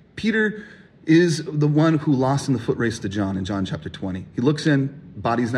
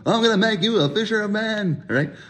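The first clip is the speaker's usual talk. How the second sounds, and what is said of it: Imitates another person's voice. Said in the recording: “bad Jerry Seinfeld impersonation”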